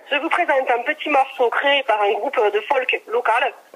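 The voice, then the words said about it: Put-on regional accent. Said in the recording (French): “je te le fais avec l'accent ... pour l'accent”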